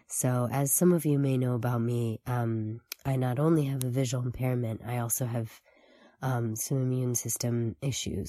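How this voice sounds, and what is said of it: Worn, strained voice after illness. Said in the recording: “my voice is a little shot”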